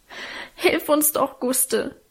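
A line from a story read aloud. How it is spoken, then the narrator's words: Sobbing. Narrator (German): schluchzte Alwine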